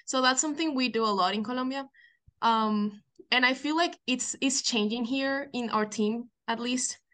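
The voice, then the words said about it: Colombian accent in English. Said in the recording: “Colombia. I'm picking up a pretty good accent”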